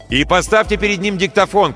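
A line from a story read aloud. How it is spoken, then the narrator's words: Shouted over shoulder. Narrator (Russian): крикнул за спину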